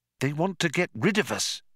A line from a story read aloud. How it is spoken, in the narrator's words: said Trillian nervously